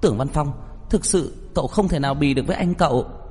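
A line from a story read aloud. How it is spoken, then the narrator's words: Angry loud cry. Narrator (Vietnamese): Trong khoảnh khắc tức giận kêu to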